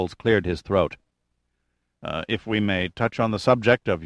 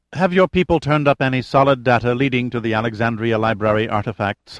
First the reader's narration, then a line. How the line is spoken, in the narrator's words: Haller asked sharply